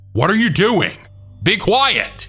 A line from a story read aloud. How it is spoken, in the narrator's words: continued to yell